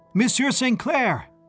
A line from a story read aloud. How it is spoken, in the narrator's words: I called out, whirling on my heel